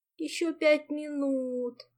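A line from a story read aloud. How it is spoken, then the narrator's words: Sleepy mumble. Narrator (Russian): сонно пробормотала та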